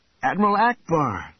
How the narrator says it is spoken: Luke cried out

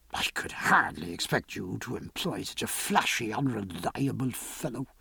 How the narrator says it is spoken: he muttered

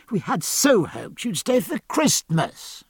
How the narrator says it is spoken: she cried

